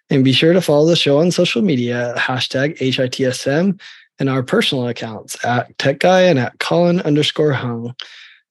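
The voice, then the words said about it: Sick, strained, poor-sounding voice. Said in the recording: “it's felt like my home was a hospital these last 5 days. So that's why my voice is terrible... We'll try not to tax your voice today”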